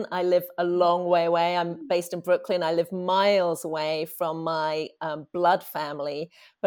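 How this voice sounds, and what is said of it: Noticeable accent. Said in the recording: “you can probably hear from my accent.”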